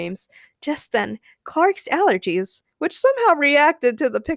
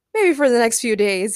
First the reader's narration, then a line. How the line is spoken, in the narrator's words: he laughed